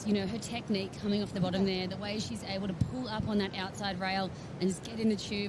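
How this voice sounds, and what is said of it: Strong American accent. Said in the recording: “Such a strong American accent.”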